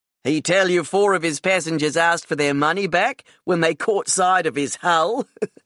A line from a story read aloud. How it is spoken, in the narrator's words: Lance laughed